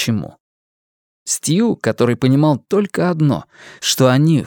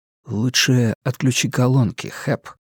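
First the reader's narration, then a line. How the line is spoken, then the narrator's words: Soft interjection. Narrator (Russian): мягко вставил Стью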